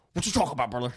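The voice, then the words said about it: Imitates another person's voice. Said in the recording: “I want to hear a Hulk Hogan, like an impersonation from you ... Come on, just be Hulk Hogan for us. I want to hear you.”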